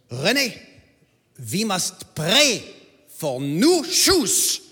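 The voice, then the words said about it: Swiss-German accent imitation. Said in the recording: “she said in her Swiss-German accent”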